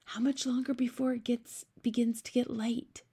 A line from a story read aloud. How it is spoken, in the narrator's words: Sophie whispered